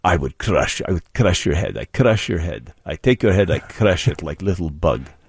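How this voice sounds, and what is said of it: Mock Russian accent. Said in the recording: “Don't do a Russian accent with him, please.”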